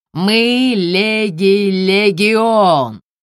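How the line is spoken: Wheezing, choking laughter. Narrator (Russian): Какие-то тени давятся от хохота и хрипят

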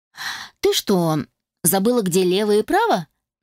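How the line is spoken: Mocking question. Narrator (Russian): насмешливо спросил он

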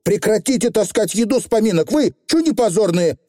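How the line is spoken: Barked shout. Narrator (Russian): гаркнула Тиффани

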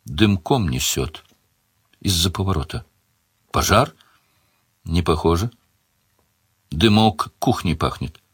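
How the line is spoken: Quiet woman. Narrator (Russian): Она тихо сказала

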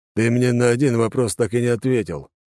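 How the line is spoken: Snort. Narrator (Russian): хмыкнул Алекс

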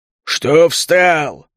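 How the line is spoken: Growl. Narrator (Russian): рыкнул он

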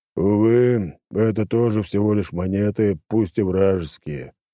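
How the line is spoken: Sighing. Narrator (Russian): вздохнул он

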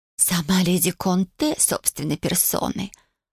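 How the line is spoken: Spiteful hiss. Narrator (Russian): злобно прошипела Фло

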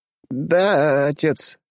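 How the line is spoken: Uncertain young boy. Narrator (Russian): неуверенно проговорил паренек

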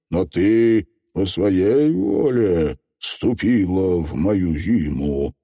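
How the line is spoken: Uncertain objection. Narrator (Russian): неуверенно возразил Зимовей

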